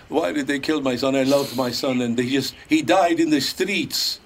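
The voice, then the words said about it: Heavy Eastern European horror-film accent. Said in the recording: “she's doing the whole Bela Lugosi accent”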